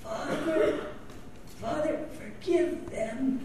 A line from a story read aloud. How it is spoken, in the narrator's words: Jesus gasped